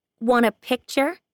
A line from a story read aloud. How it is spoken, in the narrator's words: she asks, loudly enough for him to hear